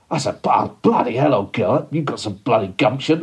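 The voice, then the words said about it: Posh Tory put-on accent. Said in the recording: “I put on a bit of a Tory accent”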